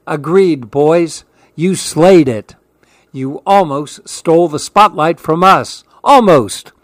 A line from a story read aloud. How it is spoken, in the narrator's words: Tio Ross joked as they all laughed